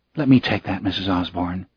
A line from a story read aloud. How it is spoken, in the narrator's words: the nurse said gently